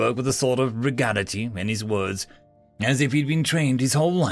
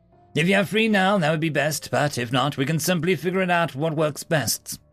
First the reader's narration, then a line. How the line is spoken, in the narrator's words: he said